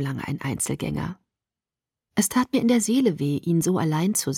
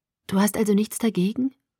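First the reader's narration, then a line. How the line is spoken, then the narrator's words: Hesitant question. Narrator (German): fragte ich zögernd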